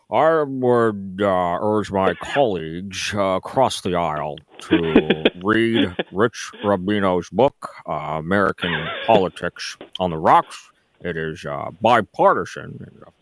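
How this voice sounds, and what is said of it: Imitates another person's voice. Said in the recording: “I do a pretty good Mitch McConnell impersonation ... that's probably not the best I've done ... that is very good”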